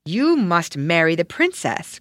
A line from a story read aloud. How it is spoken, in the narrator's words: cried he